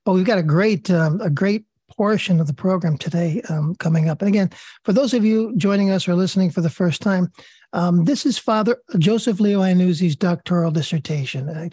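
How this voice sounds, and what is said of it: Raspy voice. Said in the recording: “you're stuck with my raspy voice. I apologize.”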